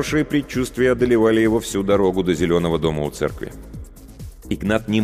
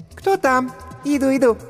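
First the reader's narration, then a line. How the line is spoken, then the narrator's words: Squeaky female voice. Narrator (Russian): пропищал женский голосок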